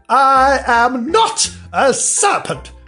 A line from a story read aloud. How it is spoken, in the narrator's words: said Alice indignantly